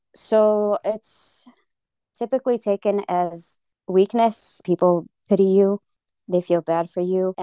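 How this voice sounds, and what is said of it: American accent. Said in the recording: “you've got this American accent”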